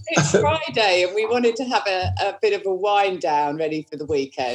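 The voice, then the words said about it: Slight English accent. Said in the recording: “I detect a slight ... English accent”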